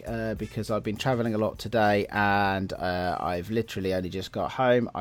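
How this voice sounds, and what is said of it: Slightly out of breath. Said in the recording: “I am a little out of breath this week”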